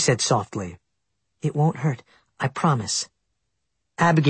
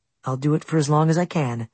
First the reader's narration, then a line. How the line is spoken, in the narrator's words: she said kindly